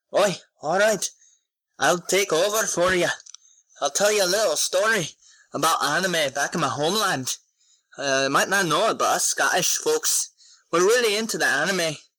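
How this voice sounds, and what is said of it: Put-on Scottish accent. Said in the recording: “Do your Scottish voice ... Scottish”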